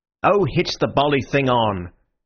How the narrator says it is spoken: said Syme impatiently

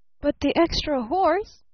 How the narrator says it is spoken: cried Barton

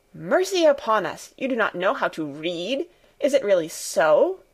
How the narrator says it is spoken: exclaimed Fräulein Rottenmeier, greatly horrified

